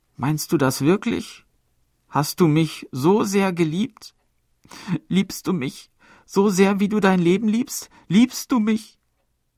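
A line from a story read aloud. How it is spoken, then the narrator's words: Sobbing. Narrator (German): sagte sie mit schluchzender Stimme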